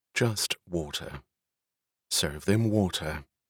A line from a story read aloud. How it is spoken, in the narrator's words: She answered in a cool tone